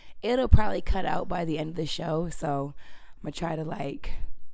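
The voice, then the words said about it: Raspy, sick-sounding voice. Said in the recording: “I'm sick as a dog right now, so sorry about my voice ... It's like really raspy.”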